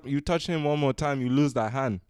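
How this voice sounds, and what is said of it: Put-on accent, fairly good. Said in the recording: “your accent's pretty good ... It sounds better coming from you ... You don't need an Asian guy doing that accent”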